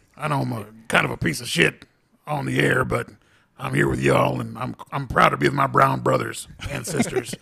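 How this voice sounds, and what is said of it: Imitates another person's voice. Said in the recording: “it's great to have Alex Jones on here, guys ... That was a very good impression ... That was a very good impression.”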